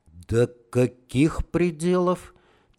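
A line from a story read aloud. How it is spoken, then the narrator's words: Quiet question. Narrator (Russian): тихо спросил Романов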